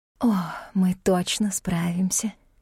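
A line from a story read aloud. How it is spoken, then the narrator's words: Whisper close to ear. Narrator (Russian): шепнула над моим ухом Джейн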